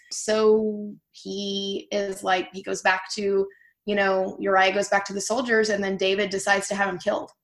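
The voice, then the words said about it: Southern US accent. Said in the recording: “This must be my Southern accent.”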